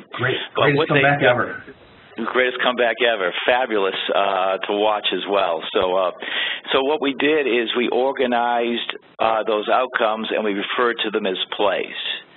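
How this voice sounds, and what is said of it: Slightly hoarse voice. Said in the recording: “if I'm a little hoarse, it's because of screaming at the TV last night”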